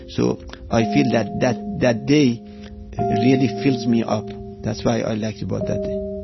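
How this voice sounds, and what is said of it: Iranian-accented English. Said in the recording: “I'm not from United States, as you notice from my accent. I'm from Iran.”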